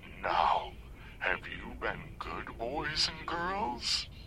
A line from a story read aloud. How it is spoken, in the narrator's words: the voice cackled